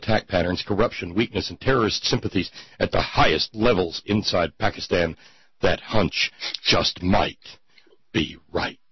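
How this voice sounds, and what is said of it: Breathless, dramatic newscaster voice. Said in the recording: “That voice you read that in was priceless ... that's my breathless, frightening newscaster voice.”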